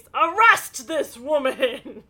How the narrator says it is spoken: Ned yells to the police

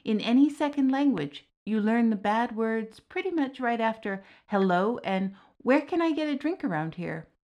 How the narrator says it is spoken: Diarmid chuckled

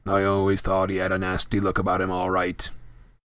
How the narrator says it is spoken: grunted a man at the bar

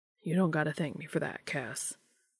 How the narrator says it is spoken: said softly

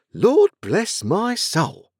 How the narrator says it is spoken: exclaiming

